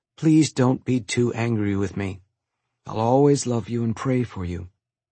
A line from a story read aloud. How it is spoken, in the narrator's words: whispered